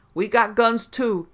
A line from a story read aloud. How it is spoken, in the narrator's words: came back a defiant shriek